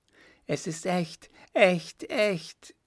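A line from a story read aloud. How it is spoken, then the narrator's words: Triumphant call. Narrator (German): rief triumphierend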